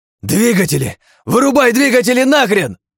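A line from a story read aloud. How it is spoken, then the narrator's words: Yelling. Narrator (Russian): Заорал я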